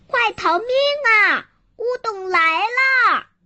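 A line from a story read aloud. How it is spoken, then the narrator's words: Shouting while running. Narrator (Chinese): 大伙一边跑一边叫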